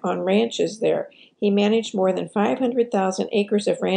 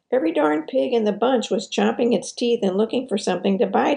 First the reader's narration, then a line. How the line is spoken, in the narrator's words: exclaimed